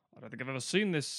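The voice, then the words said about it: Imitates another person's voice. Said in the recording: “your impression of Murray Johnson”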